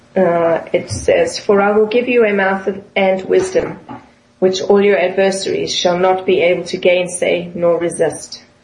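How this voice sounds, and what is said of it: South African accent. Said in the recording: “your South African accent there in pronunciations.”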